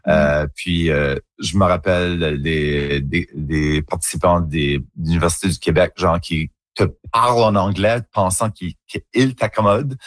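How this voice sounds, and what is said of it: Acadian French accent, rounded. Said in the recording (French): “self-conscious de notre accent ... mon accent en acadien ... un accent un petit peu plus coloré, un petit peu plus rond, arrondi”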